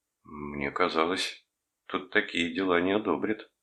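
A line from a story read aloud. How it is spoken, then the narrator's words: Mumbled. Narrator (Russian): промямлил я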